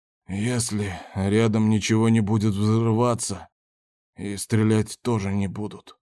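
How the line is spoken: Hoarse voice. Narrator (Russian): севшим голосом сказал Кондор

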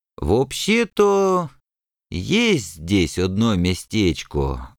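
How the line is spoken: Thoughtful drawl. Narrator (Russian): задумчиво протянул Злобыня Никитич

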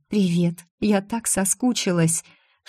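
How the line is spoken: Soft whisper. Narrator (Russian): тихо шепнула

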